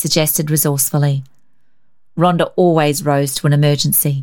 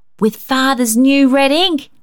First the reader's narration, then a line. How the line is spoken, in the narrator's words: she exclaimed